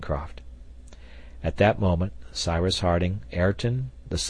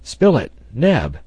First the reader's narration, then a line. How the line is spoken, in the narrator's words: cried the engineer